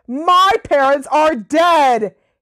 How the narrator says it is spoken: Harry bellowed

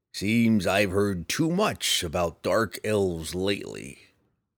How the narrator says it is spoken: the bounty hunter grumbled

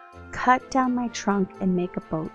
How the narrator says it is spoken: said the tree

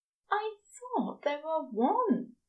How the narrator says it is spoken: Aziraphale murmurs

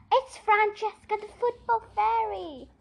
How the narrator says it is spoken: Kirsty cried in delight

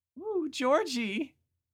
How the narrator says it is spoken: she squealed

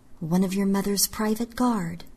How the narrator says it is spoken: murmured

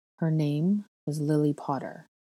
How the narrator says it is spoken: Snape finally told me, his voice low and even

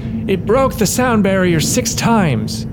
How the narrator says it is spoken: yelled Hyde

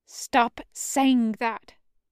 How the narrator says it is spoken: Ink hissed

